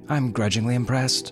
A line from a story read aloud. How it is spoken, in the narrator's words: said Ma